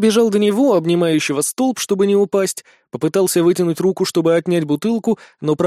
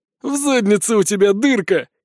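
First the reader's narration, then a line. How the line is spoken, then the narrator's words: Giggle. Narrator (Russian): хихикнул Лютес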